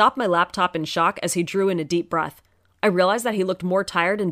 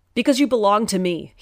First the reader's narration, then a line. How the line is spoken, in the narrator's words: he roared, the whole house shaking from his voice